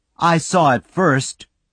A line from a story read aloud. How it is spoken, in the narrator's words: Joey cried